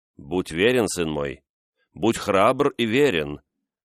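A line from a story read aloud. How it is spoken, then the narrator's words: Solemn old nobleman. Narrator (Russian): торжественно проговорил старый вельможа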